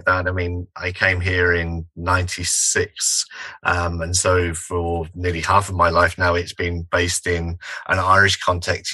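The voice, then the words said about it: English accent. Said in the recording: “still very English, the accent being one”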